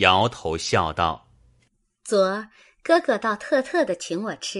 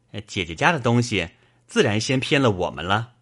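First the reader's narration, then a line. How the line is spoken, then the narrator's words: Laughing. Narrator (Chinese): 宝玉笑道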